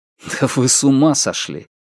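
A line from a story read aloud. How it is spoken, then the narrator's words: Cold laugh. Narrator (Russian): Джан Линь холодно рассмеялся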